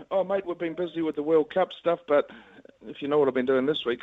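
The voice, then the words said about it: New Zealand accent. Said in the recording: “Good to see you haven't lost your Kiwi accent either, son.”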